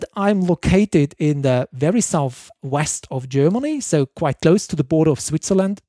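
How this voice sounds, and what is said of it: German accent. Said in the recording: “I'm German, so it's the accent might be obvious”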